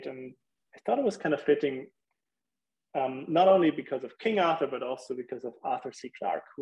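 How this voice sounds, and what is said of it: Non-English foreign accent. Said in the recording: “I hear your accent, I'm like, wait, he doesn't sound English.”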